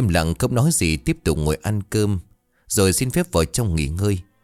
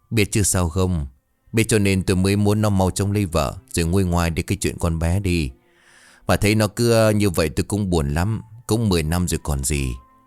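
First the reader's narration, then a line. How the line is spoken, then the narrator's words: Sighing. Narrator (Vietnamese): Bảo Anh thở dài bảo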